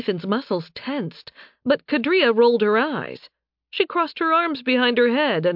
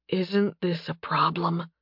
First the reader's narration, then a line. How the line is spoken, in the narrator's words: Nathan whispered